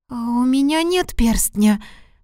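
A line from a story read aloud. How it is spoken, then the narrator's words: Trembling voice. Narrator (Russian): дрожащим голосом ответила Лусия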